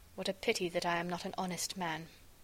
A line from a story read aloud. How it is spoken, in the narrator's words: I muttered